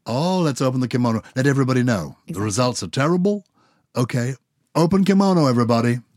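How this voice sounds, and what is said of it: Put-on American accent. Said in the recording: “I love the way I'm doing an American accent.”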